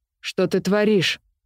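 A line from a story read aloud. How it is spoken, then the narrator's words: Barking. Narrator (Russian): рявкнул Уайтхорн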